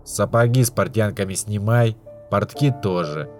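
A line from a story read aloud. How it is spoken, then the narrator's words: Grumbling. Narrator (Russian): буркнул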